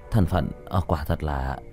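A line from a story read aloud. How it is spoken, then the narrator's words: Muttering. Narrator (Vietnamese): Chu Giai Hào lẩm bẩm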